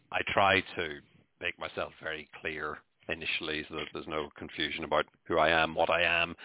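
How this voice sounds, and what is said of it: Irish accent. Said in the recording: “I know I'm Irish ... The Irish accent”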